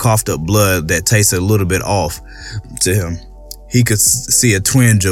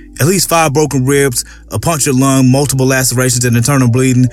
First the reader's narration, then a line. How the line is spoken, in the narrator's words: the medics called out